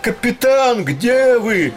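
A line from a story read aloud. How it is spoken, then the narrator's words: Shouted. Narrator (Russian): Давно уже Летика кричал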